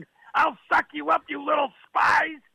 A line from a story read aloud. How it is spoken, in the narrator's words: Daddy screamed